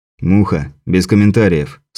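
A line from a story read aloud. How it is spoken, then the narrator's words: Stern command. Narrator (Russian): строго приказал Андрей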